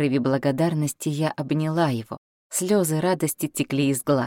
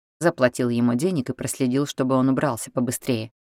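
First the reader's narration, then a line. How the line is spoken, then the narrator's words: Plain. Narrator (Russian): ответил Патрик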